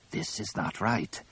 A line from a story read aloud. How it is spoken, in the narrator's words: Tizar rasped quietly